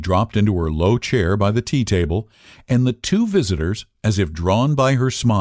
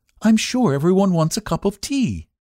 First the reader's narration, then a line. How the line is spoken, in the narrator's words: she added brightly